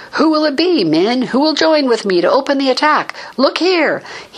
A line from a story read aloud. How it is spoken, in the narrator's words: He shouted